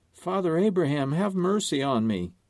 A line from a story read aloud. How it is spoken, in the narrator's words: He realizes his fate, and he cried and said